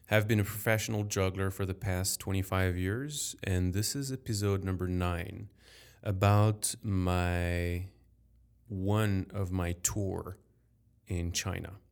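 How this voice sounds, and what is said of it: French accent. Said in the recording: “I'm French. Sorry for my accent.”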